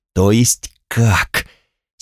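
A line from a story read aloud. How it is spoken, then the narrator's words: Menacing voice. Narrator (Russian): спросил я страшным голосом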